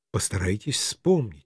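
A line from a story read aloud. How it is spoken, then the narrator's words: Gentle request. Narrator (Russian): мягко попросил я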